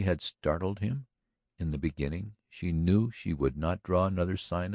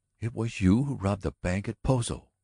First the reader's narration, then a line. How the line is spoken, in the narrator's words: she cried softly, the look in her eyes one of dread now